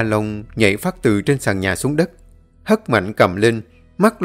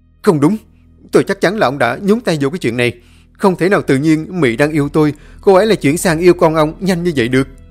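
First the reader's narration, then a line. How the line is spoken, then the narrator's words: Shouted retort. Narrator (Vietnamese): Kyra quẩn út hét lên đáp trả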